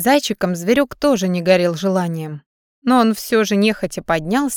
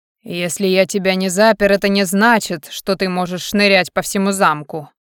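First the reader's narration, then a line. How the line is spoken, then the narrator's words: Furious man's growl. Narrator (Russian): рыкнул взбешённый мужчина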